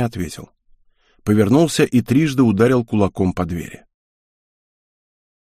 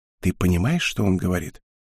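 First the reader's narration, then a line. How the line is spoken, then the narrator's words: Barely audible whisper. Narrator (Russian): едва слышно шепнула Хел из-за моей спины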